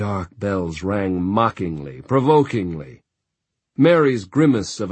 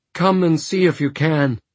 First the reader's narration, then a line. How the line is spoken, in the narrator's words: Jenna cried in a trembling voice